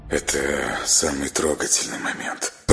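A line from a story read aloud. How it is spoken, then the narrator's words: Muttered. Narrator (Russian): пробормотал он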